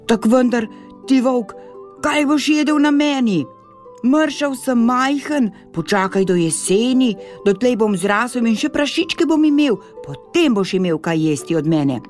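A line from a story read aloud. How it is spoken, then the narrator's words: Startled piglet pleading pitifully. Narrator (Slovenian): Prašiček je osupnil in ga je milo prosil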